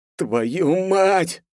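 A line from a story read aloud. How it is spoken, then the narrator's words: Groaned. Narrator (Russian): простонал я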